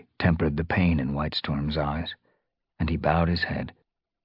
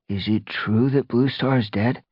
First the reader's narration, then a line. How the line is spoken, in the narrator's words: Brackenfur asked hesitantly